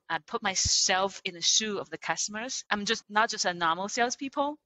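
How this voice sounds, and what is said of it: Speaks with a non-native accent. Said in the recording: “Still today, I have some kind of accent”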